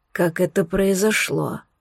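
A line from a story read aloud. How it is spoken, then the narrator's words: Barely audible, frightened. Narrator (Russian): Едва слышно спросил император побелевшими губами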